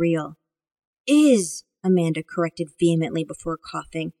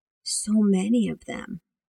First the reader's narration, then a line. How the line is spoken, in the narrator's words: Amanda whispered